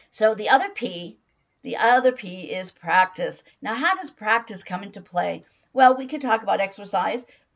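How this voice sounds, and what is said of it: Hoarse voice. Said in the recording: “I have a hoarse voice today”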